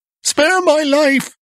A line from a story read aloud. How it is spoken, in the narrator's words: he screamed